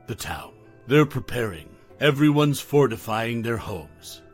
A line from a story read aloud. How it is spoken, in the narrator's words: her voice trembling with unease, Lydia said